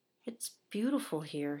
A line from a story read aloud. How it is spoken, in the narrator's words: he murmured